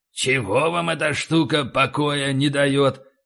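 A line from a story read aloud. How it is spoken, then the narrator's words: Grumbling. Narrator (Russian): проворчал Карстен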